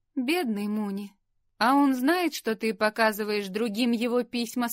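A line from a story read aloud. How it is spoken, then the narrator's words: Plain. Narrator (Russian): спросила Лори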